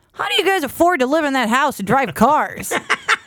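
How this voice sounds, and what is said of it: Imitates another person's voice. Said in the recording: “dead on impersonation of that guy”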